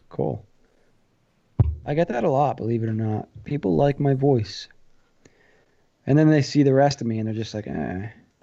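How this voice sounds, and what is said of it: New Jersey accent. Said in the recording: “That's a lovely accent you have there, New Jersey.”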